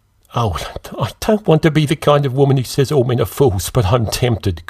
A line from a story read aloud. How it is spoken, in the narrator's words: Greta laughed